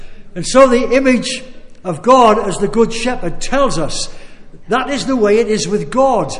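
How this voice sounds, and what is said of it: Usual voice. Nothing is said of it.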